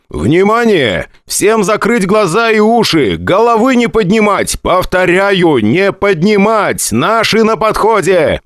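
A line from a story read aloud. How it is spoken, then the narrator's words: Shouting over radio. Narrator (Russian): Прокричал я по радиостанции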